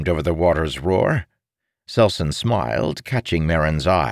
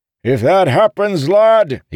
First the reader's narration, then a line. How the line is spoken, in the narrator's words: he bellowed